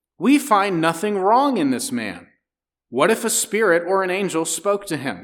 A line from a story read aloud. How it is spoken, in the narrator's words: contended sharply